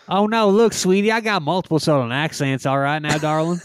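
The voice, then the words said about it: Put-on Southern accent. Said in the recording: “I got some of the southern thing going on ... Your southern accent is the same for all of them, regardless.”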